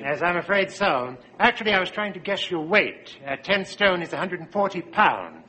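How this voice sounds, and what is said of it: English accent. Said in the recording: “I keep forgetting to speak American. ... You're English, aren't you?”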